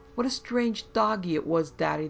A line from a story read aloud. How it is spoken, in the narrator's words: they cried